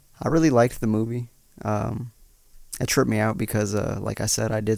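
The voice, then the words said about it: Rough, raspy voice. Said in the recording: “She's sounding a little weird today. ... Her voice is a little off. ... I'm a little off. I smoked like 5 blunts before I got here, so my voice is a little rougher. ... she is having a rough voice day”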